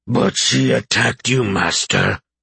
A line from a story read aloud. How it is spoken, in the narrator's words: Tiny bellowed